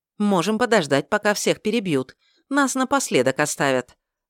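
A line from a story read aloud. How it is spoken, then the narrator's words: Snapping. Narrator (Russian): огрызнулась Мария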